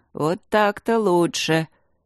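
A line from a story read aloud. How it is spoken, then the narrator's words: Many-voiced, transforming speaker. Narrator (Russian): Люк, превращаясь в Смитсона, сказал многоголосым голосом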